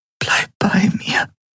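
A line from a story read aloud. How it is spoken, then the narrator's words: Whisper. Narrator (German): flüsterte sie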